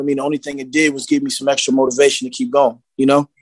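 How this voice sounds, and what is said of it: Northern Philadelphia accent. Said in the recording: “I hear an accent. Sounds very up north. ... I can definitely tell that you're from Philly.”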